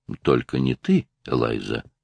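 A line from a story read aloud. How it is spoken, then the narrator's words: Soft. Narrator (Russian): мягко сказал Стив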